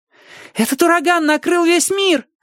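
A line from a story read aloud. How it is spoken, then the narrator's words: Shouting. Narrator (Russian): закричал кто-то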